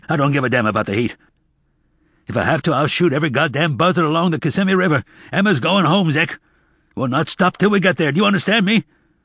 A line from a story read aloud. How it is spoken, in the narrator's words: Tobias suddenly snapped awake and said harshly